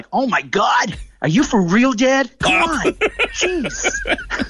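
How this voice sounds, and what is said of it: Put-on American accent. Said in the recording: “his American accent”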